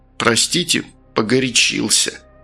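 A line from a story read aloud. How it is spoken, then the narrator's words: Through clenched teeth. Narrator (Russian): процедил тот сквозь зубы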